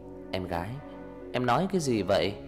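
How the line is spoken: Smiling. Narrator (Vietnamese): mỉm cười

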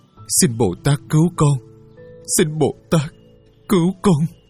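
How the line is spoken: Sobbing. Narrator (Vietnamese): Chàng nức nở

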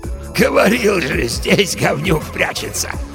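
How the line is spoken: Hoarse laugh. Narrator (Russian): засмеялся хриплоголосый

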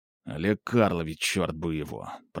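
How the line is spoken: Grumbling through teeth. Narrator (Russian): проворчал сквозь зубы, не сдержавшись, Роман Иванович

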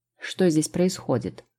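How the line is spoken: Cold question. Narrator (Russian): холодно спросил

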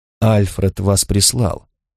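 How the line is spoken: Indifferent tone. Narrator (Russian): сказал я безразличным тоном

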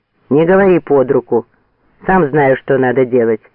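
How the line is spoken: Sharp scolding shout. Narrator (Russian): прикрикнул на него фейерверкер

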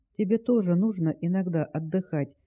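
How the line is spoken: Gentle explanation. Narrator (Russian): мягко пояснила

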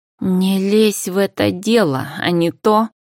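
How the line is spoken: Angry hiss. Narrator (Russian): зло зашипела парфюмерша

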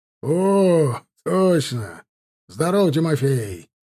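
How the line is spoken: Cheerful smiling exclamation. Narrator (Russian): воскликнул, широко улыбнувшись, казак

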